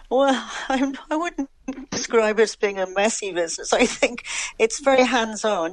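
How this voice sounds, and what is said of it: English accent. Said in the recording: “accent tells us that you were originally from England ... I know my accent has never changed overall”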